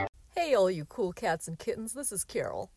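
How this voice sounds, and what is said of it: Imitates another person's voice. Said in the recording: “doing her impression of Carol Baskin from the hit Netflix series, Tiger King”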